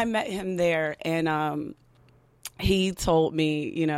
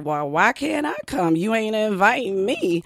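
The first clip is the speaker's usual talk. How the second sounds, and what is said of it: Sassy, attitude-filled street voice. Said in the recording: “in my most ghetto young girl, you know, voice ... I was on my lazy voice. And in my most ghetto, neck-shaking attitude”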